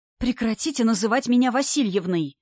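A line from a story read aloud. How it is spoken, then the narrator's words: Hissed. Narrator (Russian): зашипела на Вовку преподша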